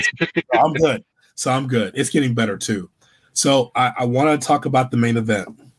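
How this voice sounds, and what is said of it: Raspy, hoarse voice. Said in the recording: “you're going to get a raspy hood for a while. I sound tougher with the raspy. ... excuse my voice”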